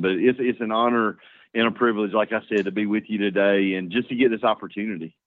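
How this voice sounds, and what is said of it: Speaks with a noticeable accent. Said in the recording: “Don't let ... accent fool you”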